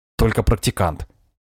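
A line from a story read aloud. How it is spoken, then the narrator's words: Grumbling. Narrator (Russian): проворчал майор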